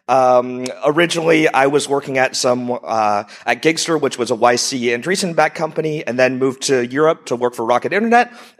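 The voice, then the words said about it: American accent. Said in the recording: “I'm originally an entrepreneur from the U.S., if you haven't figured out from my accent.”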